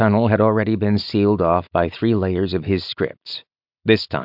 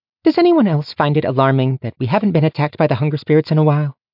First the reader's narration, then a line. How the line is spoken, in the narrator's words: Mercy piped up